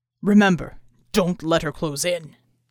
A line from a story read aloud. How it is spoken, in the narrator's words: Bull's voice rumbled after them